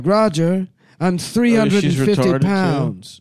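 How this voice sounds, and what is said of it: Smoky cartoon woman's voice. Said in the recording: “my impression of her ... They're both smoky”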